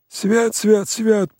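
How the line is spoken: Hoarse wheeze. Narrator (Russian): просипел Емельян

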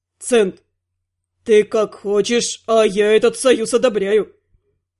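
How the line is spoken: Loud snort. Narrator (Russian): Терри громко фыркнул

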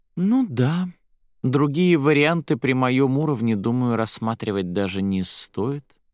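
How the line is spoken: Feigned sigh. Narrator (Russian): наигранно вздохнула Арадия

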